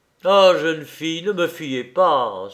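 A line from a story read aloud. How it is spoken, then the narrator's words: Exclaimed. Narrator (French): s'écria Caïs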